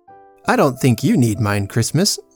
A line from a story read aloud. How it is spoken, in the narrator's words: said Danby